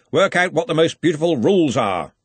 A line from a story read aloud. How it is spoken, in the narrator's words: Ridcully called out